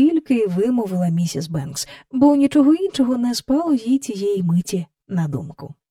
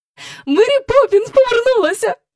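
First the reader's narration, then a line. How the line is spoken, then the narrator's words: Joyful, into phone. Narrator (Ukrainian): радісно повідомила в трубку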